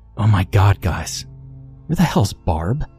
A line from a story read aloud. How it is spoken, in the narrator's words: hysterically whispered